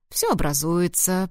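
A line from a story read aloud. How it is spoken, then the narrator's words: Encouraging. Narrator (Russian): приободрил он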